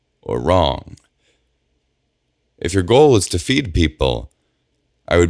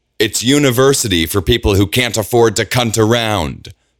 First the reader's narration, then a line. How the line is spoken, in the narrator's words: Bridget snaps back